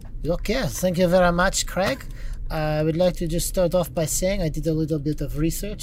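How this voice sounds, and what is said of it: Put-on French accent. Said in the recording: “make my French accent a little more authentic ... It was so, it was perfect ... Sometimes the fake ones are funnier than the real ones.”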